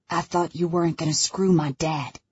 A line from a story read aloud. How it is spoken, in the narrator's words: hisses